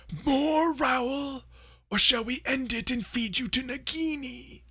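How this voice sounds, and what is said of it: Ralph Fiennes as Voldemort impression. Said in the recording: “good Ralph Fiennes impression”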